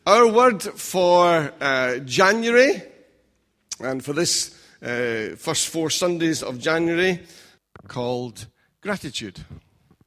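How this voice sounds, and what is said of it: Scottish accent. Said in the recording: “being England and being Scottish ... you're got a different accent”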